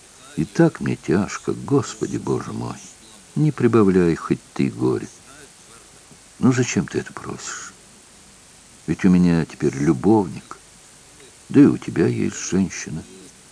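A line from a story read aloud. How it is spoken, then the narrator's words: Quiet, head lowered. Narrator (Russian): она тихо сказала, не поднимая головы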